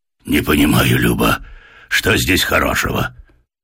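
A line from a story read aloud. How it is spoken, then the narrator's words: Muffled hoarse male grumble. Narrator (Russian): пробурчал из-под пледа осипший от дороги мужской голос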